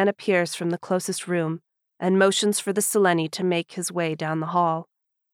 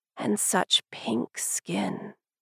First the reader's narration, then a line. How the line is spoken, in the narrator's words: murmurs